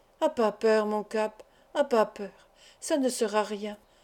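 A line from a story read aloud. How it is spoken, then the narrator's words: Murmured. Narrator (French): murmura Pointe-Pescade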